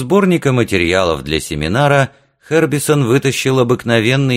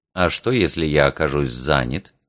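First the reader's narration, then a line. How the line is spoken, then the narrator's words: Quiet question. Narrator (Russian): тихо спросил Митч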